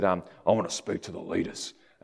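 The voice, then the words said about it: Gruff bloke put-on accent. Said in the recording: “this really sort of gruff bloke ... I won't continue that accent because it's weird”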